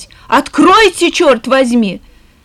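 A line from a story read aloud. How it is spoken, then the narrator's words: Shouted. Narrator (Russian): закричать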